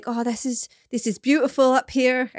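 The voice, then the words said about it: Put-on Hertfordshire English accent. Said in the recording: “I can't do that accent... Is he from Hertfordshire?... Hertfordshire. I will not do that accent again.”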